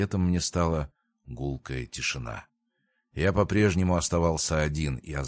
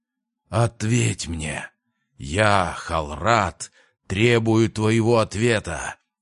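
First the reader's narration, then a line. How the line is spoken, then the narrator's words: Roared. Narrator (Russian): взревел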